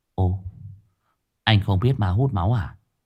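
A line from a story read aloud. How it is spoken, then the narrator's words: Quiet voice. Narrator (Vietnamese): Nó nhỏ giọng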